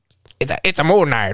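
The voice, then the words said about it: Luigi cartoon character voice. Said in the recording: “my Luigi impression.”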